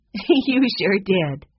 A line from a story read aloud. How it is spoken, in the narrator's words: said Violet, chuckling